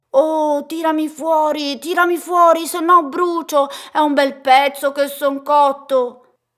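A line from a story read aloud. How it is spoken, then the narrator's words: Bread shouting. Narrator (Italian): il pane che grida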